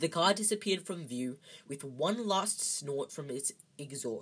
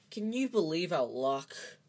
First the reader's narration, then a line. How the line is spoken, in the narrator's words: said Ron miserably